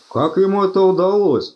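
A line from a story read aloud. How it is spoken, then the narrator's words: Exclamation. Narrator (Russian): воскликнул Чудакули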